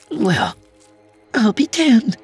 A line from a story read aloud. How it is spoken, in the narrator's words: she chirped